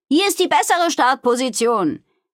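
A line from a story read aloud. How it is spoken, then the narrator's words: Calling to others. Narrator (German): rief sie den anderen zu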